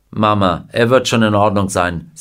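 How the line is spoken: Plain. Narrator (German): sagte Mr

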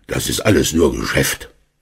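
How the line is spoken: Grumbling. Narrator (German): Herr Schmidt brummte

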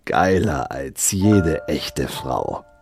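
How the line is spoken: Leaning in, hissing. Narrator (German): lehnte sich vor und zischte

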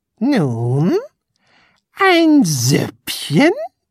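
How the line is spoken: Close gleeful growl. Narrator (German): knurrte Tunichtgut ganz dicht neben ihn und freute sich diebisch

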